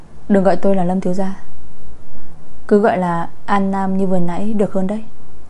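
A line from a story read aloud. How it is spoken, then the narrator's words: Hesitant smiling speech. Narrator (Vietnamese): Anh ta ngập ngừng mỉm cười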